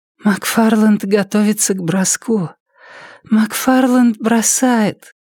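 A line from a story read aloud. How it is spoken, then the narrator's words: Tired exhale. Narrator (Russian): Устало выдохнула Триша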